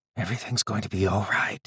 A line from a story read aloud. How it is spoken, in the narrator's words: whispered